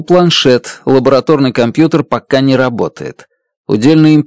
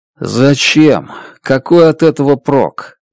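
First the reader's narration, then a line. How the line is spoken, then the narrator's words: Dejected question. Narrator (Russian): уныло спрашиваю я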